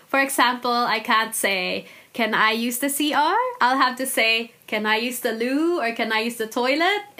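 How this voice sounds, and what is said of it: Mixed accent that sounds American. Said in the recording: “My accent is quite weird now, but they still say that I sound American”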